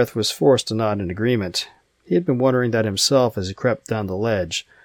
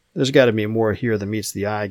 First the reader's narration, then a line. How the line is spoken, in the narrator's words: Gareth said